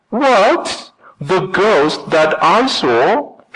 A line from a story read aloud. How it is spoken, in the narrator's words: shouted Boots